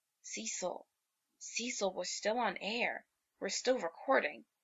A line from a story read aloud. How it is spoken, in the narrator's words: he hisses